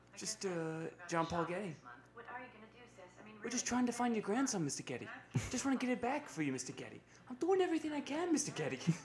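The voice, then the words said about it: Impression of Mark Wahlberg. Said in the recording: “that's my impression of Mark Wahlberg in the movie”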